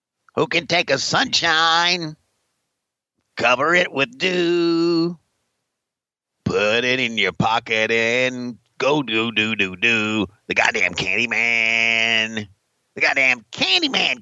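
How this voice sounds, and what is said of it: Imitates another person's voice, singing. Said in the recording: “your impression of Jim Herd singing The Candyman by Sammy Davis Jr.”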